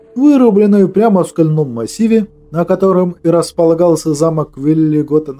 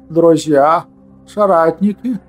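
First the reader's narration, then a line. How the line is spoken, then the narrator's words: Hoarse exclamation, then coughing. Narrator (Russian): хрипло воскликнул Велигуд, но тут же закашлялся от волнения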